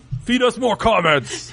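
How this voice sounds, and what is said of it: Ryback-style wrestling voice impression. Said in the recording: “I like your wrestling voice. ... I was trying to do a Ryback voice, and I realized his is way more mm-hmm. girly. ... it goes into like my Vince McMahon”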